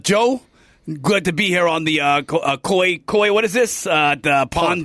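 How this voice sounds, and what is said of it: Bernie Sanders impression. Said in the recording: “I've been working on Bernie Sanders. ... Just do Bernie Sanders.”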